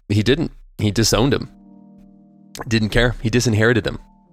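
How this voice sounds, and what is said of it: Voice still weak, not fully recovered. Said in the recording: “my voice is still coming back from COVID and stuff”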